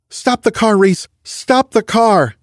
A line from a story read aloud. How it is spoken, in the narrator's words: shouted